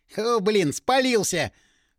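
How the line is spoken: Laughing, hoarse coughing. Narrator (Russian): Рассмеялся пиромант и хрипло закашлялся

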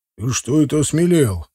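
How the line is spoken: Menacing grumble. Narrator (Russian): проворчал угрожающий Тивадар

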